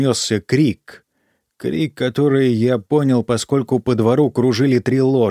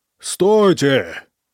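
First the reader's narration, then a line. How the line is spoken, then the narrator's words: Shouted. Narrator (Russian): крикнул я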